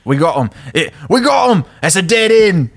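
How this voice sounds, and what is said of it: Put-on British accent, somewhat Scottish. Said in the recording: “I got to do my British accent because this is Harry Potter ... It might be a little bit too Scottish”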